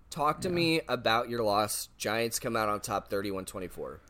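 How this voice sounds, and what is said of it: Strained, troubled voice. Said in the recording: “my voice is having a fit right now”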